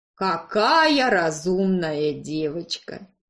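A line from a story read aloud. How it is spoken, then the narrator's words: Mocking drawl. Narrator (Russian): Издевательски протянул он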